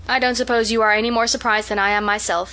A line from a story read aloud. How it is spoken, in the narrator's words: said Marilla